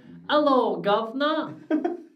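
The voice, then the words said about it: Bad put-on British accent. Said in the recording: “I would love to do a British ... my accents are bad though ... I can't do it”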